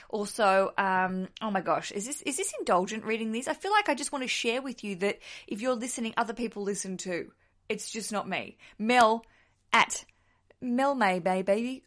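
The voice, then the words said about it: Australian accent. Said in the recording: “love an Aussie accent”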